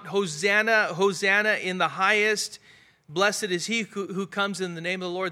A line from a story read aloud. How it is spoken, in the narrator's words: So crying out, loud voice, shouting, really yelling out, crying out